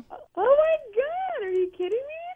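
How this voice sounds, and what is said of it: Excited, high-pitched voice. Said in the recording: “Your voice got really high.”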